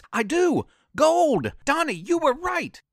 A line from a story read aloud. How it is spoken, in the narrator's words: Teresa scream